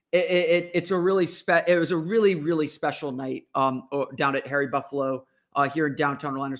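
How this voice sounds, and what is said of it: Slightly hoarse voice. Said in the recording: “my voice is a little bit hoarse still, just from having to shout so much”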